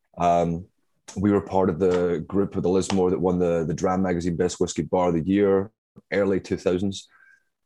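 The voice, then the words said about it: Scottish accent. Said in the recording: “my accent, as I'm sure you can tell, is not uh, native to Brooklyn ... I'm from uh, Glasgow, Scotland.”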